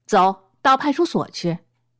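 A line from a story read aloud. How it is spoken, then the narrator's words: Harsh, stern. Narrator (Chinese): 厉声道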